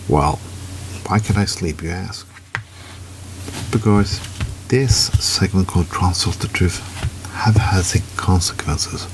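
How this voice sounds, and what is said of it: Low, early-morning voice. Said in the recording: “my voice is a little low, it's because I'm reading in this early in the morning”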